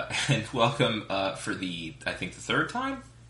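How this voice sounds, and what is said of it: Usual voice. Nothing is said of it.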